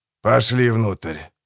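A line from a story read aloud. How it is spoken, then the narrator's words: Sigh. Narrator (Russian): вздохнул Гегель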